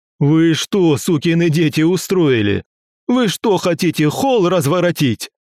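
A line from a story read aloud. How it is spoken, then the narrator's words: Yelling. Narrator (Russian): Заорал он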